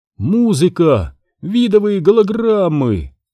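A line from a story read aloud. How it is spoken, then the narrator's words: Exclaiming. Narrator (Russian): воскликнул Пакси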